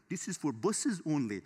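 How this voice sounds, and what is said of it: Attempted French-accented broken English. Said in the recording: “they said it like in their broken English ... that's not a French accent. I don't know what I was doing there”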